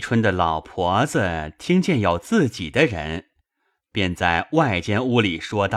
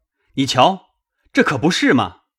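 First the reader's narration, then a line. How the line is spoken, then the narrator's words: Crowd clamoring. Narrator (Chinese): 大家一起嚷起来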